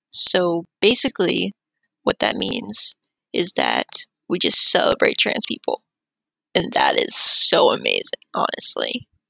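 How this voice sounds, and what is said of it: Slightly deep, scratchy, sick-sounding voice. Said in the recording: “I sound a little sick... I'm purposely making my voice slightly deeper... it's a little scratchy”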